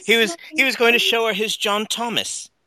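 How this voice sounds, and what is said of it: Put-on British accent. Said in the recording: “your British accent ... Is amazing ... Van Dyke would be proud”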